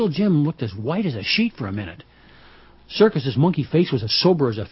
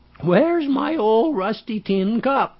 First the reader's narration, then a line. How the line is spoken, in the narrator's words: Poetry's voice quavered, and it didn't sound any more like Poetry than anything